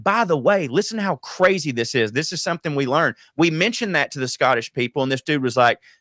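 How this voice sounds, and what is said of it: Usual voice. Nothing is said of it.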